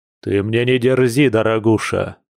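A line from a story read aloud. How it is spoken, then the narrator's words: Growling. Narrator (Russian): прорычал Филат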